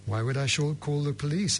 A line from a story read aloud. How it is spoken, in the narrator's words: answered the abbot calmly